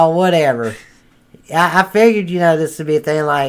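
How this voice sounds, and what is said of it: Usual voice. Nothing is said of it.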